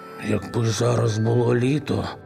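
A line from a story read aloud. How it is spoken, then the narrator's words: Sighing. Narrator (Ukrainian): зітхнув Григорик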